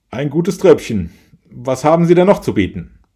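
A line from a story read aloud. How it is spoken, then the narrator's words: Boss calling across. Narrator (German): Der Chef der Gesellschaft rief zu dem Winzer rüber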